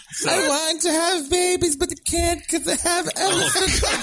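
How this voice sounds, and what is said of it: Bad mock Greenland accent. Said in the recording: “Worst accent. ... It's a Greenland accent.”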